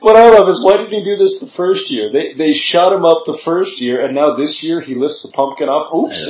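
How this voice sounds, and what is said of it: Usual voice. Nothing is said of it.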